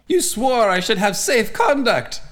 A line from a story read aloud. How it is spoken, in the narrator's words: the Yunkish envoy wailed